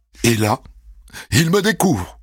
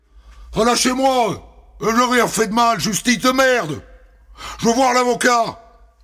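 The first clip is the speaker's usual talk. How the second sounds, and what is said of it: Shouting angry character voice. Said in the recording (French): “je l'entends déjà hurler”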